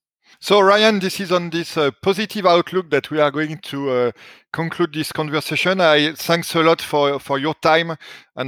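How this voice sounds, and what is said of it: French accent in English. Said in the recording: “my accent is very ... French.”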